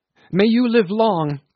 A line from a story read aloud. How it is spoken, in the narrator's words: cried Tommy Tom